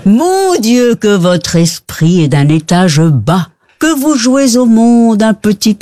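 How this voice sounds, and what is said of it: Put-on Belgian French accent. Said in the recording (French): “Mais avec l'accent belge, on a dit.”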